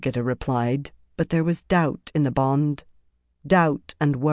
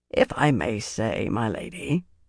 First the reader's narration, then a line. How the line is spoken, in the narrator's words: said in his dry voice